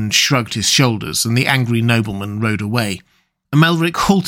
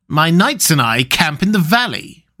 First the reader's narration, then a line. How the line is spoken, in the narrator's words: retorted Thespides angrily